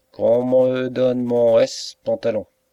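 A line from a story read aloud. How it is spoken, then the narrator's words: Roared. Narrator (French): rugit Barque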